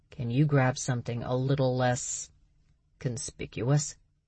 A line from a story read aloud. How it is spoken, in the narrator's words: he calmly asked